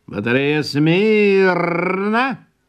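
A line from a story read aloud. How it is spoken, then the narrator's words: Sergeant shouting. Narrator (Russian): кричал сержант Ланцов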